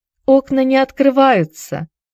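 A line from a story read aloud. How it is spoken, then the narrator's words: Sad. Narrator (Russian): печально проговорила Хайди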